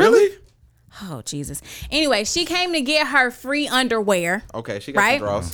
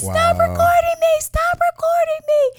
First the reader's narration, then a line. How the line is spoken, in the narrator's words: Literally crying and she starts shaking, screaming, saying